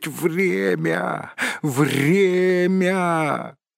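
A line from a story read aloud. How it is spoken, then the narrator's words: Hoarse rasp. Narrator (Russian): прохрипеть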